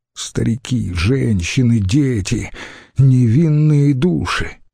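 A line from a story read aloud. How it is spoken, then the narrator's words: Sighing. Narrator (Russian): Верцингетарик вздохнул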